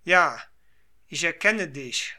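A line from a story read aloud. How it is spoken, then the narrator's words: Deeply moved exclamation. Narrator (German): rief er endlich voll Rührung aus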